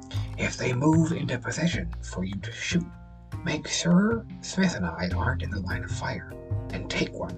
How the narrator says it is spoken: The old man whispered quietly

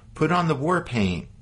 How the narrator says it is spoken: Cross shouted to his men

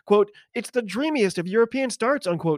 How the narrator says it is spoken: shouted the comms

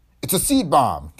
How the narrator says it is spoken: cried

